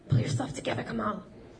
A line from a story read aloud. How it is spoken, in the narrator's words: he hissed in Turkish